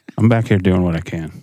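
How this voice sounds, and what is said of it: Projecting, professional radio voice. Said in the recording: “his voice is just so much more awesome ... just sounds so professional ... that voice that you have that projects ... radio voice”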